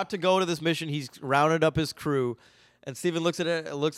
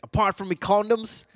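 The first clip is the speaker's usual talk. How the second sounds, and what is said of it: Attempted British accent sounding Australian. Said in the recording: “We do not know how to do British accents on this podcast. We only do Australian accents... I've been doing Australian, honestly.”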